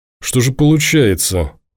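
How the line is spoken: Through clenched teeth. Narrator (Russian): выцедил сквозь зубы Тимур

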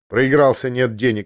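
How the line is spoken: Dry reply. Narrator (Russian): ответил он сухо

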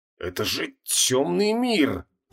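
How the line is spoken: Hoarse wheeze. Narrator (Russian): просипел Креол

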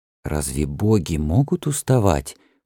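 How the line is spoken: Whispered. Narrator (Russian): прошептал у него за спиной Эннана

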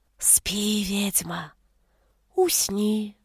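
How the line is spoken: Whispered spell in ear. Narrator (Russian): шепнул наговор мне прямо в ухо Аук

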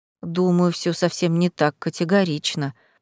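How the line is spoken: Mumbled. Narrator (Russian): пробормотал Реймонд

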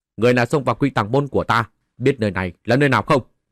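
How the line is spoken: Loud shout. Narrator (Vietnamese): vài vu sĩ thủ sơn cao giọng quát

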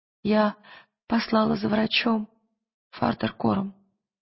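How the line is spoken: Trembling woman's voice. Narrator (Russian): дрожащим голосом произнесла женщина

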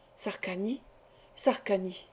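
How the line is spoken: Murmuring. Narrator (French): murmura-t-il

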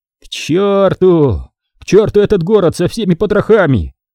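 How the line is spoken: Male yelling. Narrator (Russian): орал он

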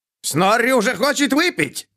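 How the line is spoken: Joyful shout. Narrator (Russian): радостно крикнул Снорри

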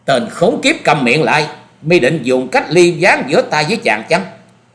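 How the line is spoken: Loud angry shout. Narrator (Vietnamese): Phan Quyền Quyền tức giận quát to

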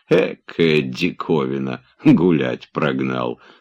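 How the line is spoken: Wheezing with a smirk. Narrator (Russian): с усмешкой сипел про себя

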